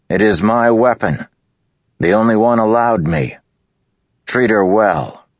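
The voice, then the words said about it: Loud, raised voice. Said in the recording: “he said in a loud voice.”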